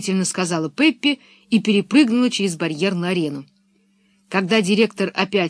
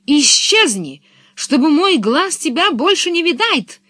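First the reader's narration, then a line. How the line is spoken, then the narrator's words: Shouting. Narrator (Russian): закричал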